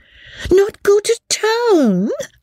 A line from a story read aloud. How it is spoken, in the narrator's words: cried Mrs